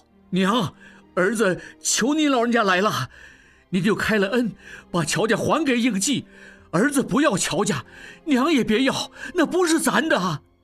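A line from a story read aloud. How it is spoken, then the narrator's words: Loud pleading. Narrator (Chinese): 何春大声道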